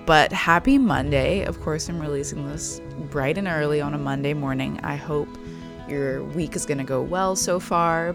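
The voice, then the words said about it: Raspy, tired voice. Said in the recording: “my voice is so raspy because I'm so tired”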